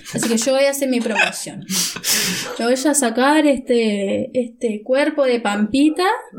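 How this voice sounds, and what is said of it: Put-on Argentine accent. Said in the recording (Spanish): “me voy a sacar este acento argentino”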